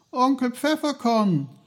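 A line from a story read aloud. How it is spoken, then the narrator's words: Called out. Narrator (German): rief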